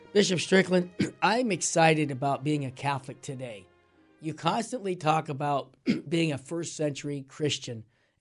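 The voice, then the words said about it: Raspy voice. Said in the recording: “I'm a little under the weather, so my voice is raspy,”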